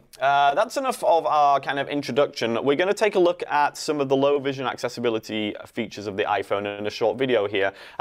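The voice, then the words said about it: English accent. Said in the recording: “they like my accent ... they want to know where I originate from ... England is the place”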